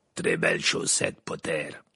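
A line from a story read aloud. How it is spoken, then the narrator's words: Gruff growl. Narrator (French): grogna Maugrey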